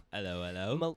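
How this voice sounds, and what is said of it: Weak put-on British accent. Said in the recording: “Is that your British accent? ... Nah, it's not very good at all.”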